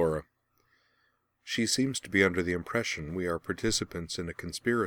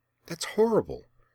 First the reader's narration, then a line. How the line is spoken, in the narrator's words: Rian exclaimed, though she kept her voice down